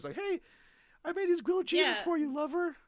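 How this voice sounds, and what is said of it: High-pitched character voice. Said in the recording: “He probably has a high voice.”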